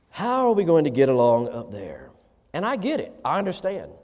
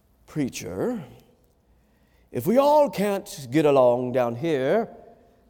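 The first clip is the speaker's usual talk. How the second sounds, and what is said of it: Put-on accent, self-described as poor. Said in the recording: “That's my worst accent, by the way.”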